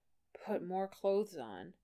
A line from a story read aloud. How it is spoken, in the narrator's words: Johnny grumbled